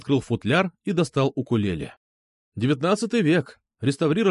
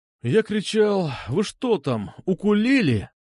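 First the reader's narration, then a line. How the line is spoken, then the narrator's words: Sighed. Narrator (Russian): вздохнул я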